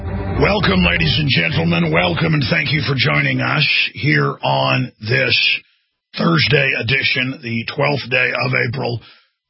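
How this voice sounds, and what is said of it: Slightly raspy voice. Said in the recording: “my voice is a little bit raspy today ... like an old car's engine, after it runs for a while, it should stop sputtering and clanking”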